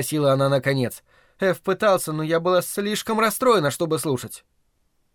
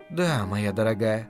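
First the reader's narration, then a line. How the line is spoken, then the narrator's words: Soft. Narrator (Russian): мягко произнесла Делия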